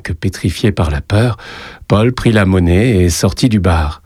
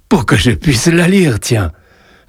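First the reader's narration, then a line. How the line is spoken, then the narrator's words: Amused reply. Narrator (French): répondit Joseph d'un ton amusé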